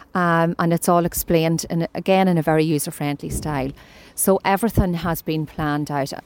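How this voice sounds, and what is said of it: Donegal Irish accent. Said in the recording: “You wouldn't think you're from Monaghan ... Pure Donegal accent.”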